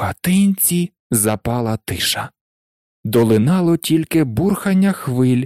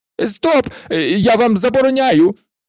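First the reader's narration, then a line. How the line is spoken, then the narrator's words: Panicked shriek. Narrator (Ukrainian): панічно заверещав дядько Вернон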